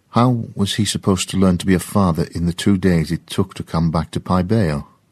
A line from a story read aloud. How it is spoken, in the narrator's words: James sighed